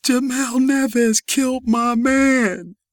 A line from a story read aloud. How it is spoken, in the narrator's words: Crying hysterically, she said